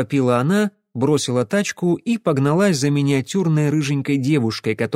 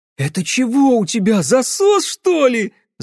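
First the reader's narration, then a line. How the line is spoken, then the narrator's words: Shrieking. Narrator (Russian): завопила рыжая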